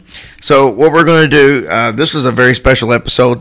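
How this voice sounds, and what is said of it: Hoarse, cracking voice from a cold. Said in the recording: “I have a horrible cold, and my voice is probably going to snap, crackle, and pop.”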